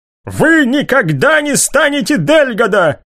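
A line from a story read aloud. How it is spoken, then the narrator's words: Furious shout. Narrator (Russian): выкрикнул Лукас в бешенстве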